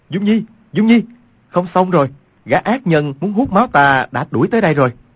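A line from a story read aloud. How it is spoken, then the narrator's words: Loud urgent cry. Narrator (Vietnamese): Quách Tĩnh cao giọng kêu lên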